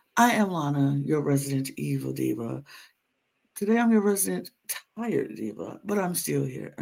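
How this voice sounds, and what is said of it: Raspy, tired voice. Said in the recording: “it would help my throat and I wouldn't sound so raspy”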